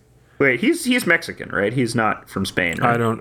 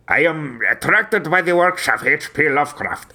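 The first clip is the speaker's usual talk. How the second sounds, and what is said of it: Imitates another person's voice. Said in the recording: “my del Toro impression's not that bad, actually. That's pretty good.”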